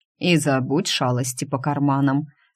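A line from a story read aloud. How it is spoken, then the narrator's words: Stern mentor. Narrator (Russian): строго велел наставник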